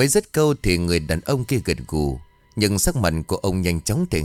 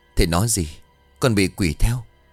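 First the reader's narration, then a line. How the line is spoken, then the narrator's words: Terrified, trembling stammer. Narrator (Vietnamese): ông Khương trợn trừng mắt lên kinh hãi, giọng của ông run rẩy miệng lắp bắp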